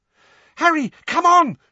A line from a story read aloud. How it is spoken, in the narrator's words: shrieked Hermione from the centre of the knot of people now fighting to get out